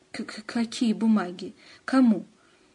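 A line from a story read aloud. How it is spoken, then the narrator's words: Sudden stammering. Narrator (Russian): Антон вдруг стал заикаться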